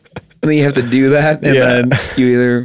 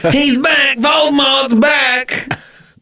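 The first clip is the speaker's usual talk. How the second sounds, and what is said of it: Imitates a film character's scream. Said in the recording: “I'd make people do their best impression of he's back.”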